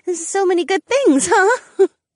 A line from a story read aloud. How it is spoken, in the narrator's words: Ariana laughed through the tears welling up in her eyes